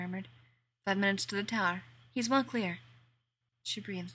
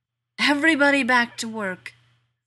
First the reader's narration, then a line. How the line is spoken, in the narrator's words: Feldman roared